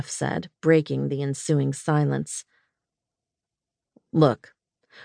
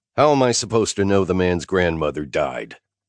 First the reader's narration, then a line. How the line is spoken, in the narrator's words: I snapped in exasperation at Lena